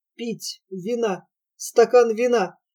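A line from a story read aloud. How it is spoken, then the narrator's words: Hoarse dry-lipped muttering. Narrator (Russian): хрипло бормотал он, облизывая сухие, как вата, губы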